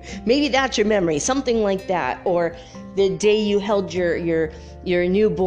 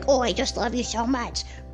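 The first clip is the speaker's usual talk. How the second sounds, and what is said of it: Little baby voice. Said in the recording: “talk in a little baby voice”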